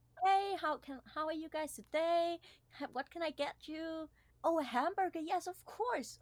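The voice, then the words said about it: Fake upbeat customer service voice. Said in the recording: “I have such a fake customer service voice... your either pitch goes higher or lower”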